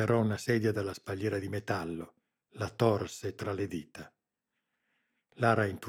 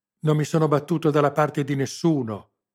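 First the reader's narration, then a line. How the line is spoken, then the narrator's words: Yelled in a broken voice. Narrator (Italian): urlò, con voce spezzata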